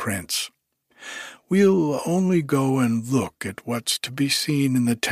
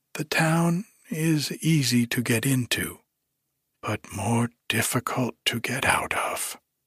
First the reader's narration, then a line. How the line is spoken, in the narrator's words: sighed Hyacinthia